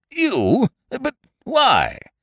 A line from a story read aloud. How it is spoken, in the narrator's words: the nobleman spluttered impotently